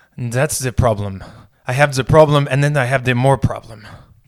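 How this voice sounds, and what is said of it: Bad put-on German accent. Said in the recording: “That's a terrible German accent. I can't do national accents at all.”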